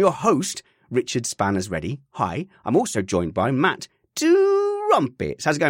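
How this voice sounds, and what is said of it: Usual voice. Nothing is said of it.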